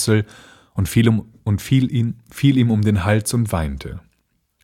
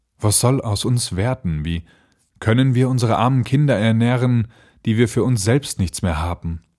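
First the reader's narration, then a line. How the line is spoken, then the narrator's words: Worried sigh. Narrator (German): seufzte er und sprach zu seiner Frau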